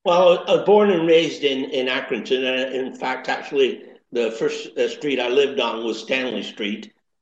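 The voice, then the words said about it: Mixed East Lancashire and Canadian accent. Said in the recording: “you've got this amazing East Lancashire crossover Canadian accent, which is absolutely wonderful”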